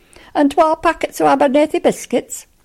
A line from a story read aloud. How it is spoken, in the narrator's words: snapped Johnny at the dumbfounded proprietrix